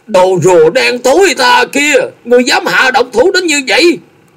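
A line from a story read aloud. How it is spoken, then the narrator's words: Shouting, voice cracking. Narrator (Vietnamese): Một mặt lạc giọng hét lớn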